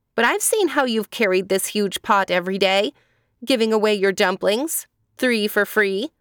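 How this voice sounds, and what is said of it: Sincere, earnest voice. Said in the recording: “said the young man in a sincere voice.”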